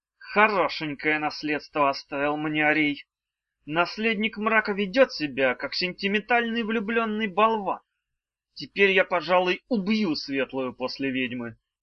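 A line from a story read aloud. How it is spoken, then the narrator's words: Hissed through teeth, exhaling. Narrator (Russian): выдыхая пары ртути, процедил гарпий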